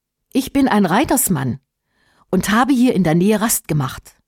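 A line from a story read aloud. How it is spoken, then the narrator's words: Plain answer. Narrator (German): antwortete Eratsch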